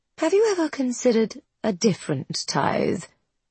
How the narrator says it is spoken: She keeps her voice casual

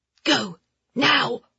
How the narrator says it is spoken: one of the men whispered in her ear

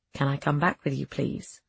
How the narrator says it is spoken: he whispered

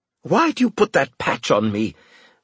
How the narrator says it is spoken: Winslade demanded, shouting at me

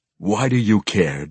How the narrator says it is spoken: growled back

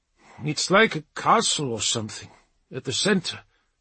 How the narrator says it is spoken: Ranulf murmured

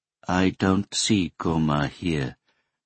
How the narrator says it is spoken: Nagata said in a flat tone

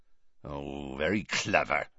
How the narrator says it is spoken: growled Hagrid

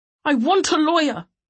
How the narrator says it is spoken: he shouted

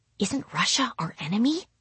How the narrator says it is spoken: she whispered, looking worried

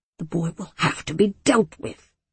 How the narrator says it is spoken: the elders muttered

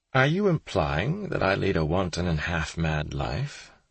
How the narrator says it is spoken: the gentleman caller asked with a chuckle

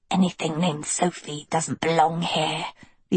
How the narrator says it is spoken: the albino wheezed

